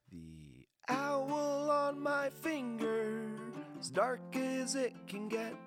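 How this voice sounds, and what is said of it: Hoarse singing voice. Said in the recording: “my hoarse voice”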